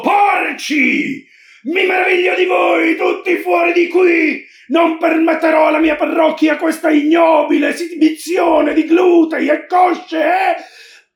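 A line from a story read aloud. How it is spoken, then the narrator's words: Shouting. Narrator (Italian): gridando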